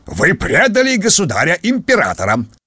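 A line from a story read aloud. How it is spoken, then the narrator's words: Barked. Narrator (Russian): рявкнул он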